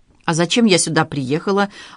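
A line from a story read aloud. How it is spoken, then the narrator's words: Uneasy snapping. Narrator (Russian): огрызнулась Надежда, которую кольнула вдруг нехорошее предчувствие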